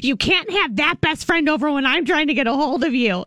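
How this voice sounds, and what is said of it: Mean-sounding imitation of another person. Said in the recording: “your impression of your best friend, Randi, ... makes her sound really mean. ... The way you just said, it was bad, man.”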